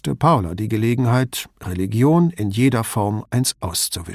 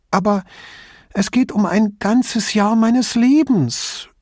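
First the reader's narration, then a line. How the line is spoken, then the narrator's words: Dramatic whining. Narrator (German): jammerte Chiara, als liege sie gefesselt am Boden und drohe, ausgepeitscht zu werden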